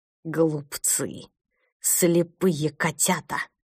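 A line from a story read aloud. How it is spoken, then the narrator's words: Hissed in the dark. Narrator (Russian): прошипел его голос в темноте коридора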